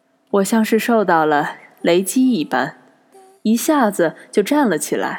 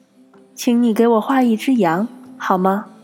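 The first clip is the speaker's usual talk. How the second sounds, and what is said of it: Small, odd little voice. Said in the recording (Chinese): “奇怪的小声音 ... 这个小小的声音”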